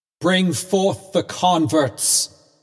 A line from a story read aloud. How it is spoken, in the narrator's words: cried a voice that echoed through the field and rolled into the forest